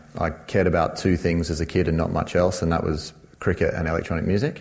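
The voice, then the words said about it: Australian accent. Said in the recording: “I'm originally from Sydney, as my accent might indicate.”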